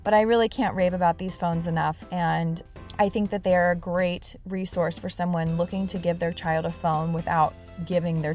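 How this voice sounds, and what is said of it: Sick, cold-affected voice. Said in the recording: “As you can probably tell in my voice, I have a bit of a cold. ... it's starting to hurt to talk”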